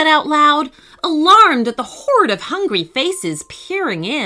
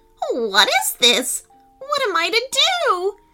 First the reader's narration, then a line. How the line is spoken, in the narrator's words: she cried